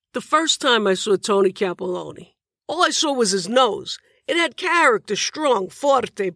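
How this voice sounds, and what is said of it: Thick Bronx accent. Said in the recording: “Bronx accent was thick as cast iron, thick as mine.”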